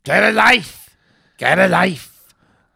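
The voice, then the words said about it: Heckling shout in Canterbury accent. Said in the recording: “did that accent not give it away? ... I think Canterbury.”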